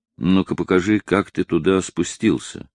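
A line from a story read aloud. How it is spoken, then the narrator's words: Quiet. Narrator (Russian): сказал тихо Лаусон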